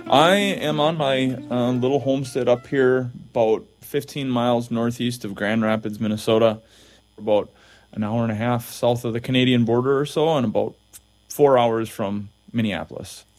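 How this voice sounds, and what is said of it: Thick warm Minnesotan accent. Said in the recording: “just a warm Minnesotan accent, like a quilt ... I got it thick.”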